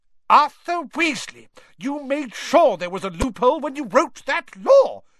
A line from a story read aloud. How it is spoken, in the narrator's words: shouted Mrs